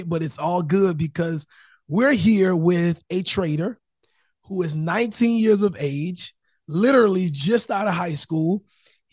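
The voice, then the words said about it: Strained, damaged-sounding voice. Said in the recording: “My voice is destroyed”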